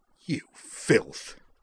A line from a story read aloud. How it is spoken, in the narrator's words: she snarled